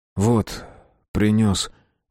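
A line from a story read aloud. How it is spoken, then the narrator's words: Grumbled mutter. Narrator (Russian): буркнул Тишка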